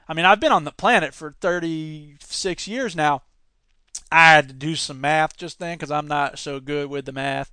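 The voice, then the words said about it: Put-on Southern US accent. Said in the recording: “Why are you using a southern accent for that guy? Maybe he's southern”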